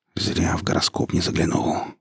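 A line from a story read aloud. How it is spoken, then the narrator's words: Whisper. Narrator (Russian): прошептал инженер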